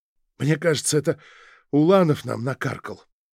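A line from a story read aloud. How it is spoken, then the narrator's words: Hoarse exhale. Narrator (Russian): хрипло выдохнул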